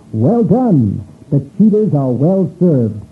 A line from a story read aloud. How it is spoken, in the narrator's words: They exclaimed